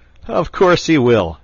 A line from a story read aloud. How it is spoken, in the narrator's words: chuckled the otter